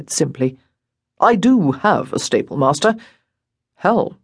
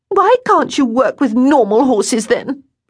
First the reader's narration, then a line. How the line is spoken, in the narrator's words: She cried